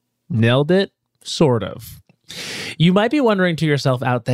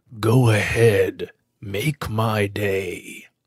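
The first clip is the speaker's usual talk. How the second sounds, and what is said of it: Clint Eastwood impression. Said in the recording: “doing a Clint Eastwood impression? ... I didn't even attempt to do it in his voice, so let me just rectify that”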